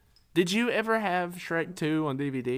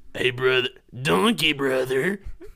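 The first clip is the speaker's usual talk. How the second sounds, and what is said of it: Hulk Hogan impression as Shrek. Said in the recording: “your Hulk Hogan Shrek impression”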